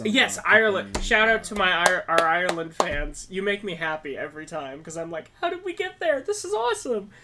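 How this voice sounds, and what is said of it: Excited, enthusiastic voice. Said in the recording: “You can hear the excitement in my voice.”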